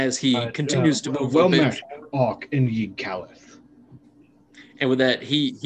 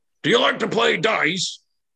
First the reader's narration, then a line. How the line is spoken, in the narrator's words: Ock kind of yells out and he says